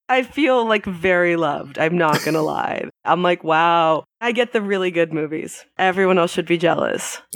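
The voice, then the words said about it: Congested voice from a cold. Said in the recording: “I've got a little bit of a cold,”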